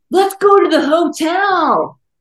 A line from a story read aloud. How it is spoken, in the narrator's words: One bearded leader shouted